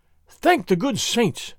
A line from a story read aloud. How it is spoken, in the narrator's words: Don Carlos gasped